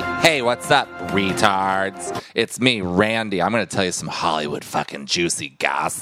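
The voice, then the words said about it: Exaggerated gossip-host character voice. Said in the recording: “You got to do it in your gossip voice, though.”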